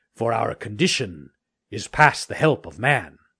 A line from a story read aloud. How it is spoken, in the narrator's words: said one of them very gravely